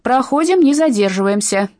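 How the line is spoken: Shout. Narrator (Russian): выкрикнула Фрэнсис

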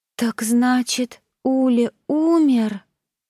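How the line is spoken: Muffled, trembling, near tears. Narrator (Russian): Голос Сани звучал глухо, а ее клюв предательски дрожал, предвещая близкие рыдания

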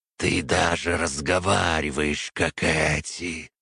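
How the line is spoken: Disgusted hiss. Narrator (Russian): с брезгливостью прошипел примарх

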